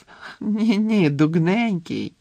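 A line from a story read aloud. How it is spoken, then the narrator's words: Ringing laughter. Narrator (Ukrainian): дзвінко розсміялася Флер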